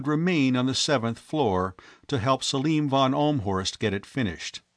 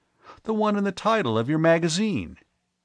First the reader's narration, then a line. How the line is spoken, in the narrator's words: Ivan Fitzgerald exclaimed